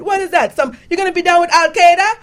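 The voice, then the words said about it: Put-on Jamaican accent. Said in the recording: “She's Jamaican, in case you want to know what accent I'm doing.”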